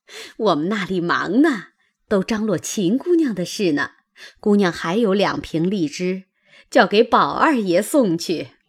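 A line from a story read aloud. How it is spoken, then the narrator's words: Old woman, cheerful grin. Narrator (Chinese): 那婆子笑嘻嘻的道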